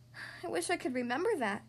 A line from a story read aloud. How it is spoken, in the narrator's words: Lola sighed